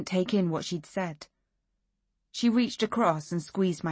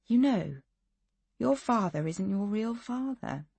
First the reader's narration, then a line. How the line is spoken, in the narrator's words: She said softly